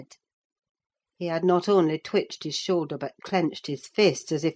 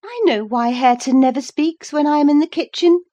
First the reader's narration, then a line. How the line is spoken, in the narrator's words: she exclaimed